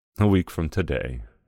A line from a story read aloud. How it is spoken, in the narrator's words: Samuel answered in a wistful voice